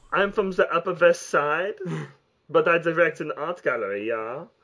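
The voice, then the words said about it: Fake ambiguous European accent. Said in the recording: “very ambiguous accent that's, like, obviously, like, fake just specifically for the art world ... Could be German, could be French.”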